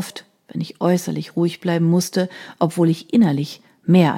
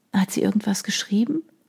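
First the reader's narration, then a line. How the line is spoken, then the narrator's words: Murmured as quietly as possible. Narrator (German): raunte ich ihm so leise wie möglich zu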